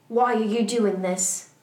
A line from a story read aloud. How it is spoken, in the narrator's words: Lupin asked angrily